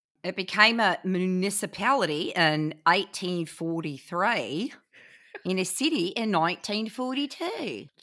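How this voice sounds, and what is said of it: Put-on accent, fairly convincing. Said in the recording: “Your accent is pretty good.”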